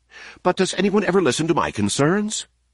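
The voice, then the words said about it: Agitated C-3PO character voice. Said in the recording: “in an agitated voice”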